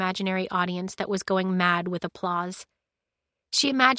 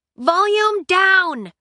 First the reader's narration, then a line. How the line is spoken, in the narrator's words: she yelled out to the main room